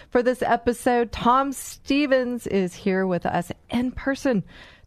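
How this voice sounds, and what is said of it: Excited, enthusiastic voice. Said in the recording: “I am so excited. You probably hear it in my voice”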